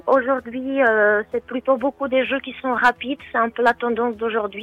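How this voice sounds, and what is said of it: Czech accent speaking French. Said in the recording (French): “d'où vient votre accent ... Je suis tchèque.”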